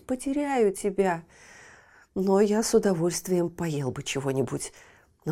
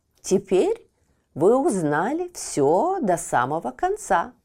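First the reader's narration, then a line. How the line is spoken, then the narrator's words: Plain. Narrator (Russian): сказал попугай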